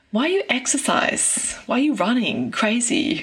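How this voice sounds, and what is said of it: Put-on Thai accent, done well. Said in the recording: “you do a really great little Thai accent there”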